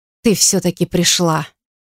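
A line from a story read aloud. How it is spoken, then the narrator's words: Quiet speech. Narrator (Russian): произнесла она тихо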